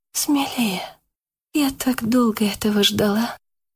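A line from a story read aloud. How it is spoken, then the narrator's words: Whisper. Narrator (Russian): прошептала Яна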